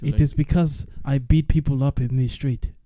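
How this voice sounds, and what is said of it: Heavy accented English, character voice. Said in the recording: “really heavy accent English.”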